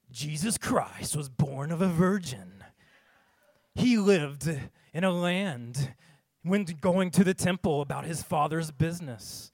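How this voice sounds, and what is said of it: Dramatic movie trailer narrator voice. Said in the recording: “I'm going to do it like in a trailer voice of a movie”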